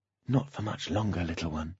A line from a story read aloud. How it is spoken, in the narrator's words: Holly whispered